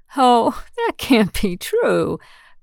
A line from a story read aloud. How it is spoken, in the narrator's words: Bess exclaimed with a laugh